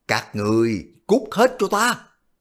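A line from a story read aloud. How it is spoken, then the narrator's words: Angry roar. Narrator (Vietnamese): Quách Định gầm lên một tiếng giận dữ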